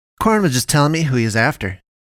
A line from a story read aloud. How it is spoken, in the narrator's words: James blurts out